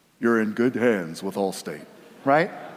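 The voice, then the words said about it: Deep announcer voice, Allstate commercial. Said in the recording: “that commercial for Allstate with that deep voice ... I can't go that deep”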